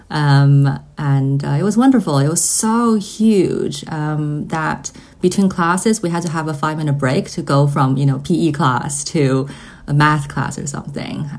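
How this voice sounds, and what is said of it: Mixed accent. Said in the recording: “I went to an American international school, so hence my mixed accent.”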